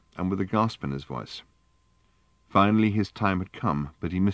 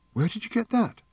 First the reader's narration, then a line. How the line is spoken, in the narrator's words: said Fenchurch, sharply, and with a gasp in her voice